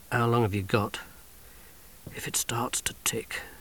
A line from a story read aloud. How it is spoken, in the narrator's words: whispered